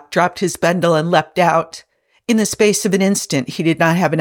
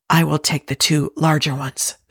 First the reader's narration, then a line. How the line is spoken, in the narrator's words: Spock whispered